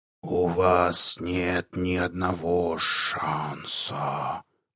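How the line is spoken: Hiss from darkness. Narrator (Russian): прошипела темнота

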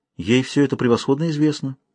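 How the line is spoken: Calm. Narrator (Russian): ответила спокойно Аль-Рауна

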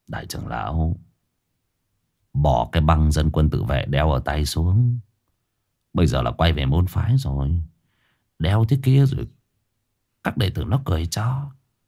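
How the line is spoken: Quiet voice. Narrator (Vietnamese): Lão Bá Quân trưởng môn nhỏ giọng

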